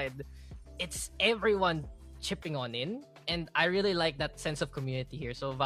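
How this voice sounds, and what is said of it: Usual voice. Nothing is said of it.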